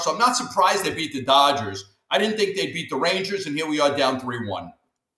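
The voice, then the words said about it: Thick New York accent. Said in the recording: “You got that good, thick accent. You New York area, I would assume? ... I'm a New Yorker, 30 years, Italian New Yorker.”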